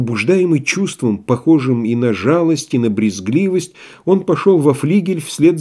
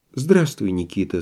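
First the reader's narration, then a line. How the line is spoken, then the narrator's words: Soft. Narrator (Russian): сказал мягко Андрей Ефимович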